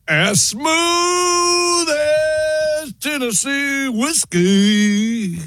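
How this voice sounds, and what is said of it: Sung line in country accent. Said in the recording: “Wow, got nailed the accent.”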